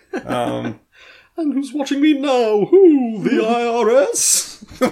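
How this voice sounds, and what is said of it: Campy Dracula-style horror voice. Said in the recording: “Why does he sound like Vincent Price when you do it? ... it's like a dragon ... anytime I do a stupid voice, I go for the Dracula.”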